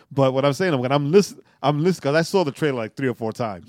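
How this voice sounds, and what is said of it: New York accent. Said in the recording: “he's still a New Yorker, right? Like me, right? ... I'm in Atlanta, but I still have the accent.”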